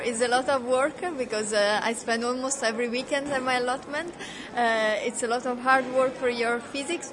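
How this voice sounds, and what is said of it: Slight foreign accent. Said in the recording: “I'm detecting a slight Eastern European accent”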